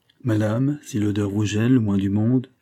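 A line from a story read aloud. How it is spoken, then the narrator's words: Plain. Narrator (French): Elle répondit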